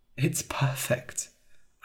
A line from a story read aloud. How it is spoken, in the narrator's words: said quietly